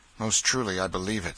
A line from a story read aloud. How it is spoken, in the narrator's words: said Miles bitterly